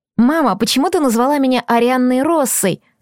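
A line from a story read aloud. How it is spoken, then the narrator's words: Plain question. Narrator (Russian): спросила я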